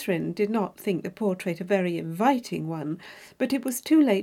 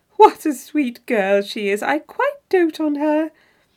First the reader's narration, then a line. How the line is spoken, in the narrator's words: her friend exclaim aloud to James